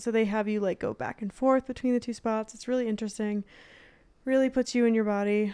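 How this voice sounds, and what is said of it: Breathless, out-of-breath speech. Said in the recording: “I don't know why I'm out of breath right now.”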